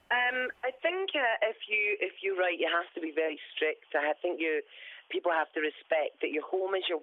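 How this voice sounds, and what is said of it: Hoarse voice. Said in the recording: “I'm very hoarse. Because my mother-in-law actually shouts a lot... so I'm a bit hoarse.”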